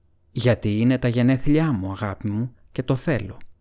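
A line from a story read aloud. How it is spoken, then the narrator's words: Plain. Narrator (Greek): είπε ο Σμέαγκολ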